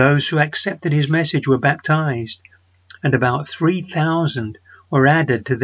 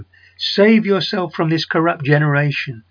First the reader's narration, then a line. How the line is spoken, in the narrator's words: Peter warned the people and he pleaded with them